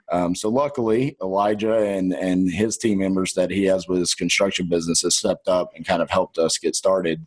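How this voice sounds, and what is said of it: Texan accent. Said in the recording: “They hear my accent way too early ... your Texan accent”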